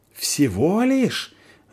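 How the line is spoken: Yelling, losing control. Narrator (Russian): вопит тот, окончательно теряя контроль над собой

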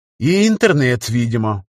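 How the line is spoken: Sighing. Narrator (Russian): вздохнул я

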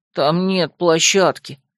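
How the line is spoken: Miserable objection. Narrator (Russian): совсем несчастным голосом возразил Лин

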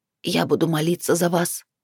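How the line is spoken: Old woman's repeated mutter. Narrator (Russian): пробормотала старуха, повторяя слова вновь и вновь

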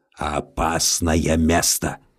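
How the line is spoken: Grumbled. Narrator (Russian): бурчал волчье сердце

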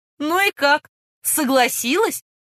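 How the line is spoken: Laughing loudly. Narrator (Russian): расхохотался лейтенант

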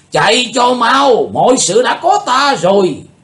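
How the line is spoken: Shout. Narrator (Vietnamese): Tà thần lỗ đạo liền quát lên

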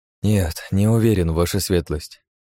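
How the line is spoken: Sighing. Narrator (Russian): вздохнул я

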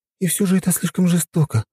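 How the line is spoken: Sighing. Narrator (Russian): вздохнула Настя

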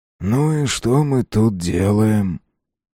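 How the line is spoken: Low and hoarse. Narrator (Russian): Вопрос вышел низким и сиплым

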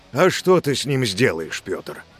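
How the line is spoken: Deep resonant voice. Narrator (Russian): Спросил глубоким звучным голосом мужчина

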